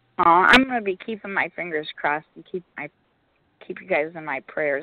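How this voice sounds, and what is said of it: Strained, nearly lost voice. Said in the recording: “my voice is gone tonight, so it's really hard for me to speak”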